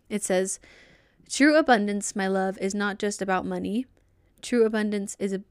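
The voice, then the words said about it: Flat monotone reading voice. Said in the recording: “I don't have a good narrator voice... It's pretty monotone”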